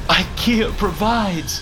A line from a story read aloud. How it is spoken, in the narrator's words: gasped Footstool, in disbelief of what had just happened